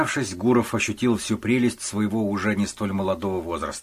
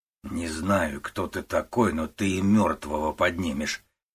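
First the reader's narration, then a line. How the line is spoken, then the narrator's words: Displeased man grumbling. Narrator (Russian): недовольно проворчал мужчина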